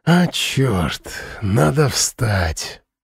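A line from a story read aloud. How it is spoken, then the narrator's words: Sigh. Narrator (Russian): вздохнул Слава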